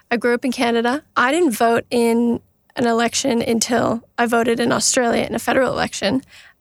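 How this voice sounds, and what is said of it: Canadian English accent. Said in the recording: “if my accent doesn't give it away, I'm Canadian.”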